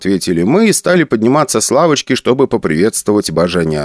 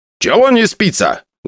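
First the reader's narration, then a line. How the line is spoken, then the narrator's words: Loud question. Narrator (Russian): громко спросил Араратович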